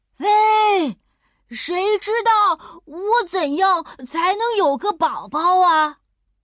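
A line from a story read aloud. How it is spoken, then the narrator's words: Shouting with all strength. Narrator (Chinese): 大熊鼓足勇气，使出全身的力气，冲着森林大喊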